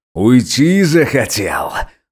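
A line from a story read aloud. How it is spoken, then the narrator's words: Loud, terrifying, crazed growl. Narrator (Russian): громко и страшно прорычал рехнувшийся полицейский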